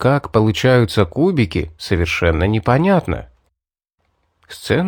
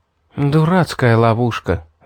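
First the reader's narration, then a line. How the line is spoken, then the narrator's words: Sigh. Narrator (Russian): вздохнула Мэри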